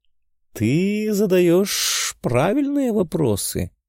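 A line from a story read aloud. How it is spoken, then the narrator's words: Purring. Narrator (Russian): промурлыкала Милофена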